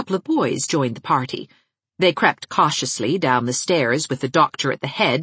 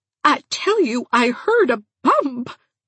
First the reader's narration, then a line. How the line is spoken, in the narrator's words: quavered Aunt Mouser